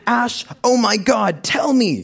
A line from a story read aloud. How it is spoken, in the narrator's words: she shrieked into the phone